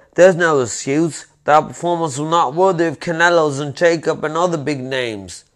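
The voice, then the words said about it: Put-on British accent. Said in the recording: “Hey, do you like that? That's pretty good. ... he's got a bit of a British accent.”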